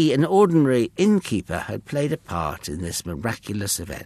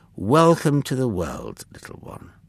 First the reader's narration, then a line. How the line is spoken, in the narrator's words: he said gently